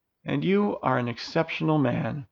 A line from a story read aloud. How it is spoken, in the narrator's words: Elodia softly replied